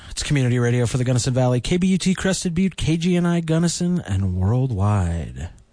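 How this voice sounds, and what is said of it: Classic radio announcer voice. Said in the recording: “has such a radio announcer voice ... And then you have that voice.”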